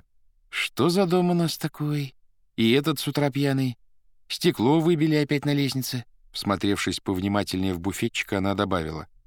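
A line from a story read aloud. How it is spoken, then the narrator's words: Smiling, thoughtful. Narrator (Russian): улыбнулась и сказала задумчиво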